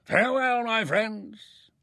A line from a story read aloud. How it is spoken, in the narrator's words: Trock shouted